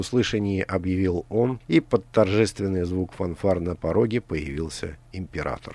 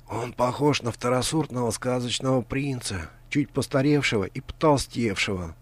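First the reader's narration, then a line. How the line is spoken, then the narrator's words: Whisper in ear. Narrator (Russian): прошептал Грант на ухо Алисе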